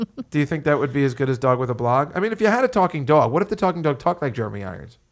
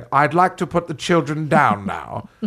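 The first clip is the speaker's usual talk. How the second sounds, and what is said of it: Imitates another person's voice. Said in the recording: “I'm doing my Jeremy Irons again... I do a Jeremy Irons imitation... I want to do a Jeremy Irons sitcom where it'd be like”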